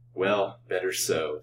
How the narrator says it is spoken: said Colville bitterly

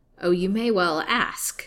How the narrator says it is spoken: snapped her liege lord

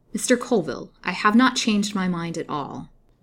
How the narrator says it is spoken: replied Lily, coldly and firmly

